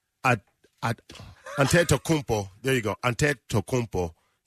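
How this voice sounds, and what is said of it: Attempted Nigerian accent. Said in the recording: “I'm trying to do it with the Nigerian accent.”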